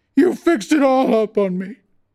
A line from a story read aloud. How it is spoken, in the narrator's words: Clagett wailed, but his voice sank toward the end